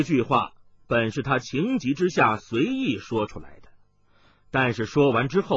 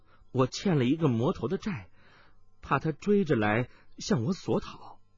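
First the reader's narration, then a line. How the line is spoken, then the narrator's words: Startled murmur. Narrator (Chinese): 温太太暗中一惊，喃喃的说道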